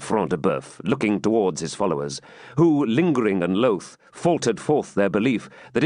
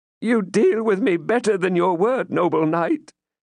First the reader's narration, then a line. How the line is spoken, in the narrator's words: whimpered forth poor Womber, whose habits of buffoonery were not to be overcome even by the immediate prospect of death